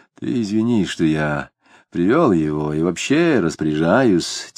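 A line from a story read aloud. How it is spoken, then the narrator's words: Quiet. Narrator (Russian): тихонько говорил Дронов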